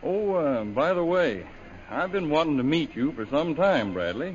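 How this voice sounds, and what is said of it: Texas drawl. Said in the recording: “that old familiar drawl in your voice ... Texas accent”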